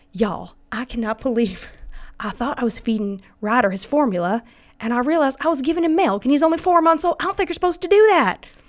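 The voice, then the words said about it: Put-on Southern accent. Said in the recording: “I give her a Southern accent.”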